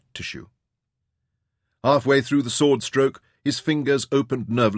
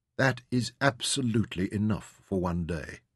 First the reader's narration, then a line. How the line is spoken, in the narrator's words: he said gently